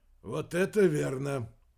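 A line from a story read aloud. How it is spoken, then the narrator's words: Sighing. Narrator (Russian): вздохнул Венсон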